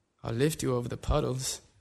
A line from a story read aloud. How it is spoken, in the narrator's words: the girl laughs